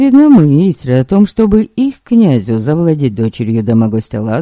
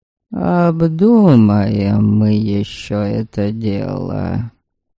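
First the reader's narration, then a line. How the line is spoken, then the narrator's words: Muttering. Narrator (Russian): пробормотал Дедобор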